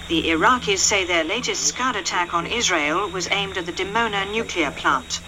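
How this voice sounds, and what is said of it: Serious British accent, beautiful voice. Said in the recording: “very serious British accent, ... one of the most beautiful voices I'd ever heard.”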